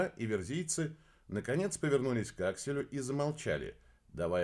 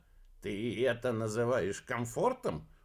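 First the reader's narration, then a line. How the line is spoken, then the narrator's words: Grumbling. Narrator (Russian): пробурчал Бабарский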